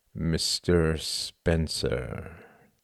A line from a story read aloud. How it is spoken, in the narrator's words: said Cuthbert slowly